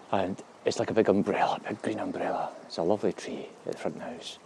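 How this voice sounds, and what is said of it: Whispering. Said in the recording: “That's why I'm whispering, by the way. I don't want to disturb her.”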